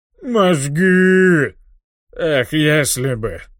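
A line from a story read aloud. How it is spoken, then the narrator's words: Sad sigh. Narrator (Russian): Печально вздыхает Аарам Нарана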